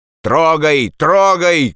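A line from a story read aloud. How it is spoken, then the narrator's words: Shouting. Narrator (Russian): кричал часовой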